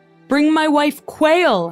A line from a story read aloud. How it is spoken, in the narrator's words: Henry bellowed